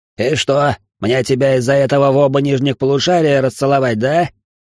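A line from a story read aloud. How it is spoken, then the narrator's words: Angry soldier barking. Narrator (Russian): сердито рявкнул вояка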